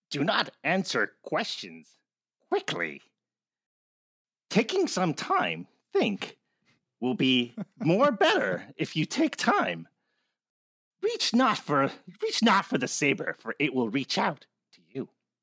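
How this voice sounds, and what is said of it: Yoda character voice impression. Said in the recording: “Give your best impression of Yoda giving wise advice.”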